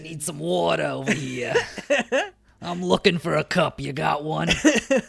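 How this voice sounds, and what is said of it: Character voice, halfway Brooklyn accent. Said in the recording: “It's an interesting accent for her ... That's how I imagine her, is, like, halfway Brooklyn”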